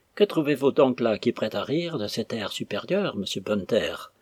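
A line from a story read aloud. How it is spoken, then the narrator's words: Grumbling. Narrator (French): grogna-t-il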